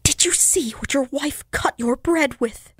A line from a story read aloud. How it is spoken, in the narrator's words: asked in a low whisper